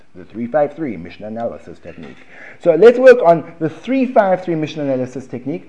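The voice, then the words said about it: American accent. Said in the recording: “You can almost hear my American accent coming out.”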